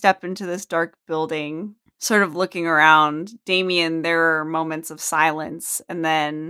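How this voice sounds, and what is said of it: Usual voice. Nothing is said of it.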